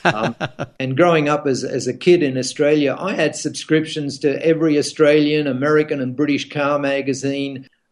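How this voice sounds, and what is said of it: American accent. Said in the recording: “I have an American accent now”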